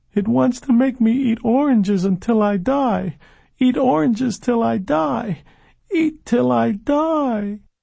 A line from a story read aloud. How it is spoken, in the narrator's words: the boy's mother heard him screaming